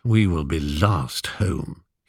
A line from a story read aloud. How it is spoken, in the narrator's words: muttered